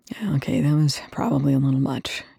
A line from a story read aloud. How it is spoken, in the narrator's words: Young muttered